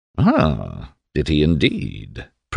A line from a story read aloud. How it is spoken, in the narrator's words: purred Swan